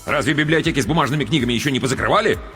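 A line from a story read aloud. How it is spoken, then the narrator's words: Angry interjection. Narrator (Russian): сердито вмешался отец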